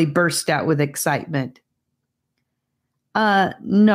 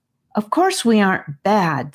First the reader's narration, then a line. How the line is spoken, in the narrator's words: said Annika in her most frustrated voice